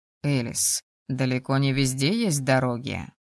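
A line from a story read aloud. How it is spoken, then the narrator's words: Scoffing. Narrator (Russian): хмыкнул Логинов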